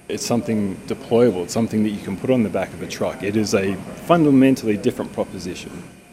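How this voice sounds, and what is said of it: Australian accent. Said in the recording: “has an Australian accent”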